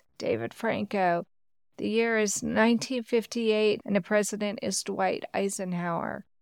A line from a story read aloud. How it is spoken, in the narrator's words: I answered in a slurry and shaking voice